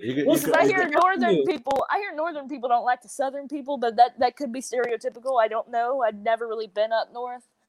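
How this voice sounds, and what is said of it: Southern American accent. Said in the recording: “my accent ... my whole southern accent”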